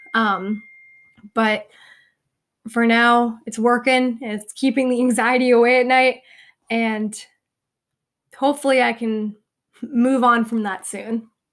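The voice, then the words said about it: Strained, fading voice. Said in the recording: “I'm like losing my voice”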